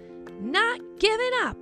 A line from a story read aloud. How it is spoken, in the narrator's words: Rosie shouted